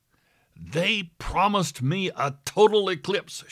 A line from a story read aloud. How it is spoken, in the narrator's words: shouting